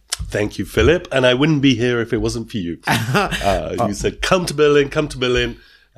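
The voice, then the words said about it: British accent. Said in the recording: “your accent, because you are by origin a British citizen”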